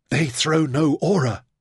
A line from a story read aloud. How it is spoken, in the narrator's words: he gasped